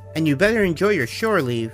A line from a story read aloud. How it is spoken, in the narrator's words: she yelled over the noise